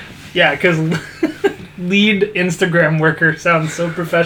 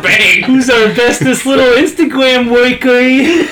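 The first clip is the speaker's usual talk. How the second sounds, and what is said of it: Italian mob boss accent. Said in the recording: “Why do you sound like an Italian mob boss?”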